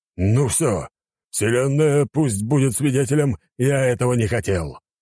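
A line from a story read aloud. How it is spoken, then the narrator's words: Growled. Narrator (Russian): прорычал король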